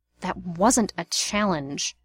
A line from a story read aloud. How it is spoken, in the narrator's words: Remus hissed